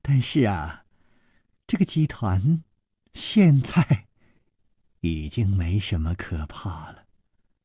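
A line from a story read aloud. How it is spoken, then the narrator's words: Sudden laugh. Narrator (Chinese): 柳无眉忽然笑道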